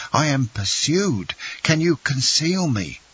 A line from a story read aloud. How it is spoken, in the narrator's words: he exclaimed